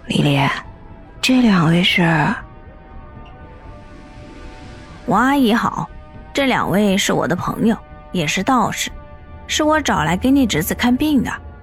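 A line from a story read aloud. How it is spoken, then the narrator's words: Nervous whisper. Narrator (Chinese): 神色慌张的 小声的对着刘丽丽说道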